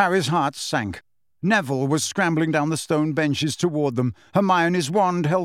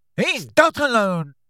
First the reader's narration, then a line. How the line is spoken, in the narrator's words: shouted a voice from above them